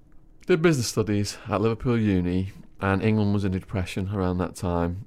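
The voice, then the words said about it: English accent. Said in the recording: “your English accent ... whenever I opened my mouth and people heard the accent”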